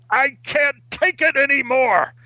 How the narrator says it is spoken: He roared as he stood up from the table and yelled

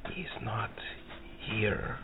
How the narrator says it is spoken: Gosrick whispers in a radio quieter voice

